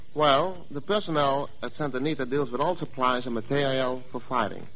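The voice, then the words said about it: Dutch accent. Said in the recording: “I can't figure out your accent. Where are you from? ... I'm from Holland”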